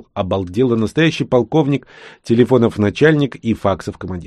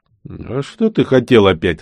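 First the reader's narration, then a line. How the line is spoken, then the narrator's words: Loud laughter. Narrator (Russian): расхохотался Олег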